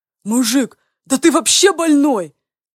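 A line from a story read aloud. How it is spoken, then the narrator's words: Exhaled words. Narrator (Russian): выдохнул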